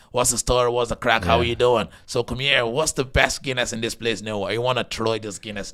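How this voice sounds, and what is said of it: Put-on Blackpaddy character accent. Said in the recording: “My accent is more like more culty because it's a Blackpaddy ... that's the Blackpaddy acting there”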